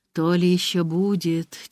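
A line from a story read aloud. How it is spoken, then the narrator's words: Heavy sigh. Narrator (Russian): тяжело вздохнула Грета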